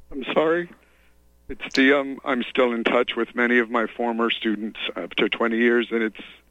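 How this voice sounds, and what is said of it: Choked-up, emotional voice. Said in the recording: “you're going to choke me up here ... Sorry, I get choked up.”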